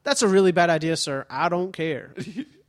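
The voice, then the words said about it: Put-on Southern accent. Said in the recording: “I don't know why I gave him a Southern accent.”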